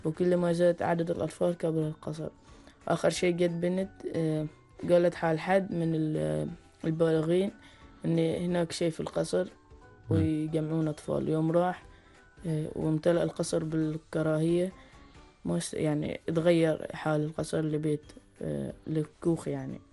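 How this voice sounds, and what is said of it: Omani Arabic dialect, Suwaiq style. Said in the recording (Arabic): “إنك تسردها باللهجة العمانية باللهجة لهجة أهل السويق”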